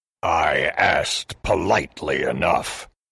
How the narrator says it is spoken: grunted the oni

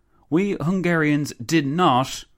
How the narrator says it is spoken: the Countess exclaimed

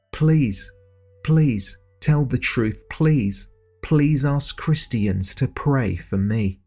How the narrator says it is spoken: Joyce cried, screamed, and pleaded

